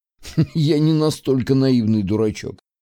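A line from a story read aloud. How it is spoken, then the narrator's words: Laughing reply. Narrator (Russian): засмеялся в ответ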